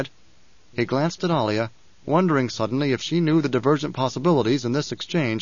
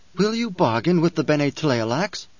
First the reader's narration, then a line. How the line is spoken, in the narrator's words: The Gola asked, his voice a sharp intrusion